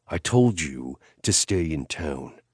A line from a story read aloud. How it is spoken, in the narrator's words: he snarled